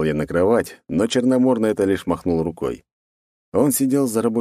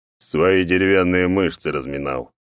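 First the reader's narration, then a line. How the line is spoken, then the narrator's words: Deep bass voice. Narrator (Russian): пробасил он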